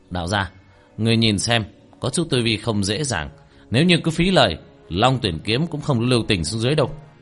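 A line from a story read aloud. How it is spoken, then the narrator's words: Shouted. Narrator (Vietnamese): Tiểu Thất hét lên một tiếng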